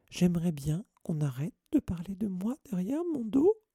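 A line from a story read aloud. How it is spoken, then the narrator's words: Sobbing exclamation. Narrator (French): s'exclama Mimi d'une voix sanglotante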